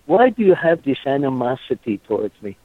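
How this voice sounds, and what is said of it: Character voice. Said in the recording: “let me put on my Bruno voice.”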